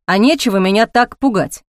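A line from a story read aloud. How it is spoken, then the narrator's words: Snapping retort. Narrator (Russian): огрызнулся Ник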